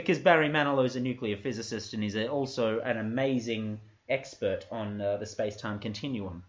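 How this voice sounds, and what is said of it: Usual voice. Nothing is said of it.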